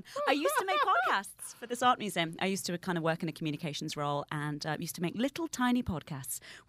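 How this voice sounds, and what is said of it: Noticeable accent, sounds posh. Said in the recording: “An art museum with that accent. Oh, but she's not posh”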